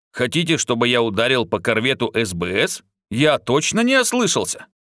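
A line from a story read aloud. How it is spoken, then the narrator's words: Calm. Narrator (Russian): Тарс спокойно сказал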